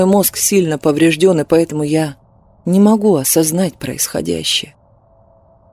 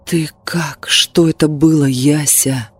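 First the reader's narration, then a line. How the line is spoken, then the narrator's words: Almost soundless whisper. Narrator (Russian): почти беззвучным шепотом спросил он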